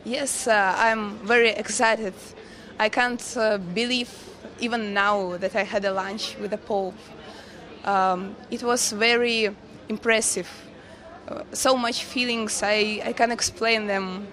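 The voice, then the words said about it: Hoarse, strained voice. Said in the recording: “You can hear that I lost my voice even because I'm a little bit nervous.”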